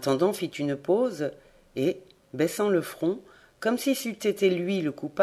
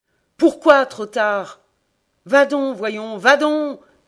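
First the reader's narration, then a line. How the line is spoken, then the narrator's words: Screamed. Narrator (French): hurla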